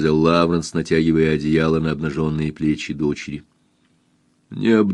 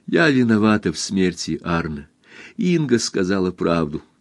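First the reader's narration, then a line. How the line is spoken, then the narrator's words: Quiet, plaintive. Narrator (Russian): Кристин тихо, жалобно сказала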